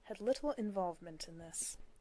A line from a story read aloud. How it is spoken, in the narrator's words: Castiel said grimly